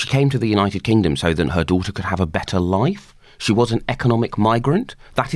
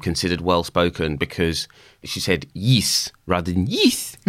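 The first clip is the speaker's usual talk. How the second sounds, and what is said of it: Bad put-on South African accent. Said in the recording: “my incredibly bad attempt to do a South African accent”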